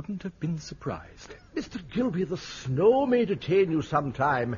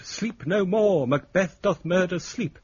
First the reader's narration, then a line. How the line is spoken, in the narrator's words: cried out